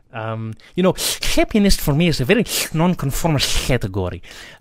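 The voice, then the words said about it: Imitates another person's voice. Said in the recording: “let me try and do my impression.”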